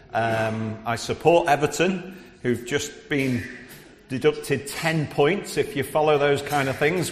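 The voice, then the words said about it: Scouse Liverpool accent. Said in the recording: “You might pick up a bit of my Scouse accent because I'm from Liverpool”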